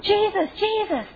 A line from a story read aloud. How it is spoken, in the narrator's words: How like the blind beggar screaming out in reckless abandon